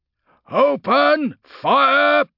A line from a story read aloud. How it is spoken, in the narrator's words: roared Domitian